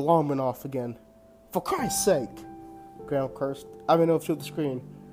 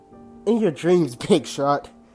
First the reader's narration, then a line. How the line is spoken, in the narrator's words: Ryan said with a laugh